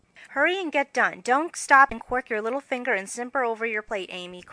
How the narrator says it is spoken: cried Jo, choking in her tea

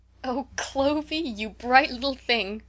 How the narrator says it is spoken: cried Rose in fits of laughter

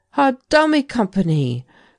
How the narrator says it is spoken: cried Tallant

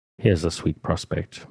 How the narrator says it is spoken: muttered Jo

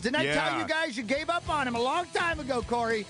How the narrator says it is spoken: He screamed right at Harris

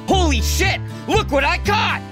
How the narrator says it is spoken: he screamed

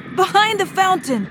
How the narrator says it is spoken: he screamed

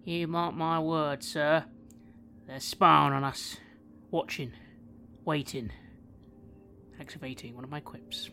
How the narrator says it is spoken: I mutter towards the professor

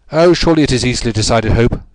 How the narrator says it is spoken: said the Premier

